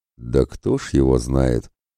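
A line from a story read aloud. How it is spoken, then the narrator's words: Thoughtful deep bass. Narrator (Russian): задумчиво пробасил тот в ответ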